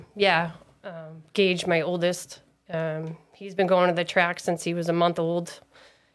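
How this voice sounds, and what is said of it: Distinctive, unusual accent. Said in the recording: “I am falling in love with your accent. It's different.”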